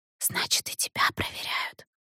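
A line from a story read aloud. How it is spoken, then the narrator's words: Whisper. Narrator (Russian): прошептала она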